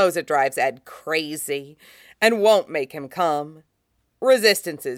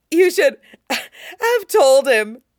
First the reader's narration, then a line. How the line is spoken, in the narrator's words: Wynn gasps